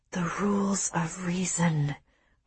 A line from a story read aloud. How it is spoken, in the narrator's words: whispered, a mindless chant